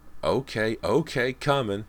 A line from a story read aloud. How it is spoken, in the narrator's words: Anthony shouted